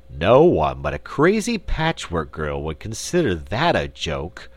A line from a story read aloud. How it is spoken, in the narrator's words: grumbled Button-Bright